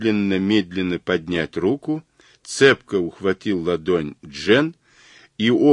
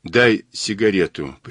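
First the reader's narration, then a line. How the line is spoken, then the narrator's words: Muffled pleading voice. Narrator (Russian): придушенным голосом попросила Джен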